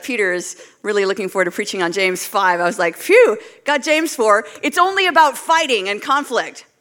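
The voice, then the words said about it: Canadian accent. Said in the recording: “you could probably tell from my voice that I'm not from around here. I moved from Canada”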